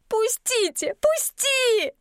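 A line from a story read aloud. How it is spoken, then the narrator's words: Choking sobs. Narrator (Russian): захлебываясь рыданиями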